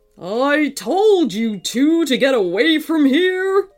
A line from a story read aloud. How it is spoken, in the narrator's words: roared the robot dinosaur over the volcano's rumbling